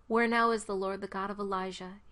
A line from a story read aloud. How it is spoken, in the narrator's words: he asked